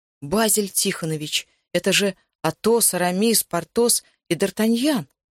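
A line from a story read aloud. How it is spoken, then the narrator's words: Amazed exclamation. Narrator (Russian): воскликнул я изумленно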